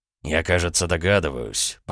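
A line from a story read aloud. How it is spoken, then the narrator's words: Barely audible mutter. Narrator (Russian): пробормотал Дерешев, но так тихо, что Аполлонов не сумел его расслышать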